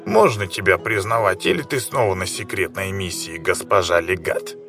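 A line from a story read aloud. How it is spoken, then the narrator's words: Grumbling. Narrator (Russian): проворчал бородач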